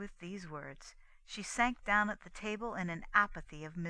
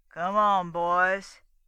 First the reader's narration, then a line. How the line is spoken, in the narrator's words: he growled in his deep bass voice